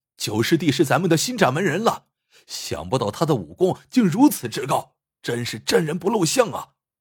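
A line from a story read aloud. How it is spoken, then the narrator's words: Shouting excitedly while running. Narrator (Chinese): 有人在屋外奔跑着经过，口中大嚷道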